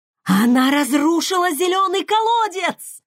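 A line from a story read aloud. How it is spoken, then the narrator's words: Howl. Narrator (Russian): взвыла Фейри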